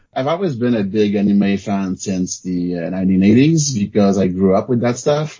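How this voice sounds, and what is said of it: French Canadian accent. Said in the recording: “I'm a French Canadian, if you haven't noticed yet by the accent.”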